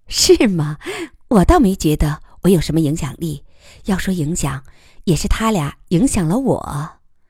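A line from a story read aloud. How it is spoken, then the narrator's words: Laughing. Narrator (Chinese): 余乐水笑道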